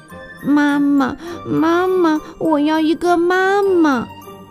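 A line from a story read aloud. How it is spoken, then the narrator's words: Crying sadly. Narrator (Chinese): 秋秋伤心极了，他开始哭起来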